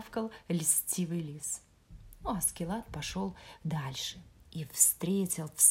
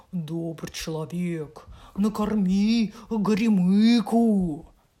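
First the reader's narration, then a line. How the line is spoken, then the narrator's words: Bear's roar. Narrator (Russian): проревел медведь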